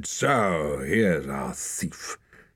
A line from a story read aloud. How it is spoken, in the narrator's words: The big man grunted